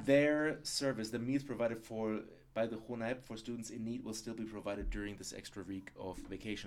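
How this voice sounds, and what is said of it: German-accented English. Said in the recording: “the more I speak English, the more I fall back into my German accent”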